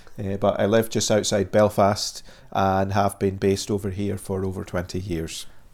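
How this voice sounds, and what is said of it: Scottish accent mixed with Northern Irish. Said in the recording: “originally I come from Dundee on the east coast of Scotland ... the accent has got a little bit mingled. When I go back to Dundee, people say you sound very Northern Irish. ... people say, oh, you sound very Scottish.”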